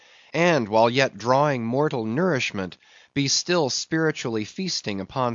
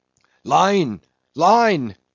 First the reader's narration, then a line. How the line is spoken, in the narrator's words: cried Queequeg